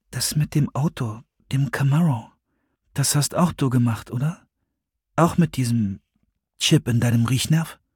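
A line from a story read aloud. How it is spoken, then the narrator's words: Quiet. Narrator (German): sagte leise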